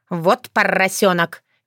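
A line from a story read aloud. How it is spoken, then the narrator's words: Good-natured snort. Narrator (Russian): беззлобно фыркнула Крылана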